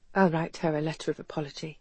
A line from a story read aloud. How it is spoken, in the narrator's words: Humbled and contrite, Garrett mumbled